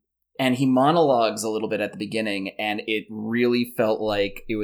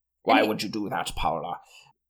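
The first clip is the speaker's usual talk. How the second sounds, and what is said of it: Oily French-ish European accent impression. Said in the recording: “he has this, like, French-ish accent. ... Or, like, Eastern European, like, ... swagger. ... He had this oily European thing going on.”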